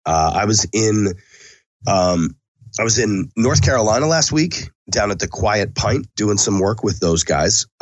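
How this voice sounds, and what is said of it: Sick-sounding voice. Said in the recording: “as you can hear in my lovely voice, I am sick. I'm sick.”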